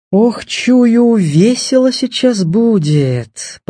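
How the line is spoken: Drawling. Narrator (Russian): протянул Степа Жарков

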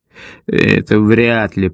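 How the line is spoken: Grumble. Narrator (Russian): пробурчал Сэм

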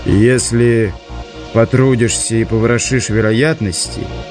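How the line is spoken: Low muffled voice. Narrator (Russian): глухо промолвил Завулон

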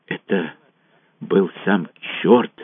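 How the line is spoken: Wounded hoarse wheeze. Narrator (Russian): прохрипел Гржебин, обливаясь кровью

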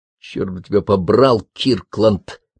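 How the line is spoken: Muttered. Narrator (Russian): пробормотал Дэвид

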